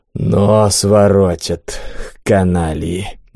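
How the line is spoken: Annoyed exhale. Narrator (Russian): досадливо выдохнул Бум

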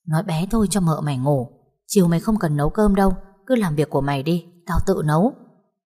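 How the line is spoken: Low angry hiss. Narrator (Vietnamese): Vũ trợn mắt rít nhỏ

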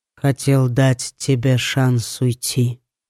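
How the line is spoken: Quiet reply. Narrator (Russian): тихо ответил Литр

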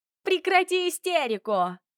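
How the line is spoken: Shrill command. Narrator (Russian): визгливо велела она мне

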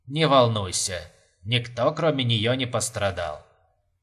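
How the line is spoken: Calm explanation. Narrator (Russian): спокойно разъяснил Тед

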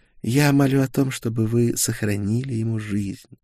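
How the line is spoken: Quiet. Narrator (Russian): тихо произнесла Гертруда

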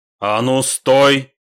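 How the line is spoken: Priest's sudden bark. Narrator (Russian): неожиданно рявкнул священник

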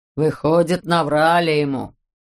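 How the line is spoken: Snort. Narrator (Russian): Циклоп хмыкнул

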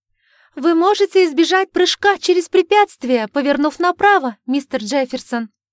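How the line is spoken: Shout. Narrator (Russian): крикнула она

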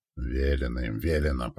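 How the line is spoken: Grumble. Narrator (Russian): проворчал тот

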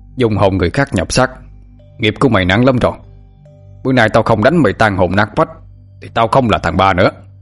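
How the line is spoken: Grandfather's shout. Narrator (Vietnamese): Ông tôi quát lên

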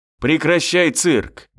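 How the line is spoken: Barked shout. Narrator (Russian): гаркнул

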